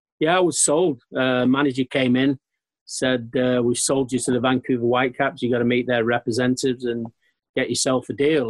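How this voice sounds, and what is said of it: Manchester English accent. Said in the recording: “you're obviously from Manchester, as we can hear from your accent.”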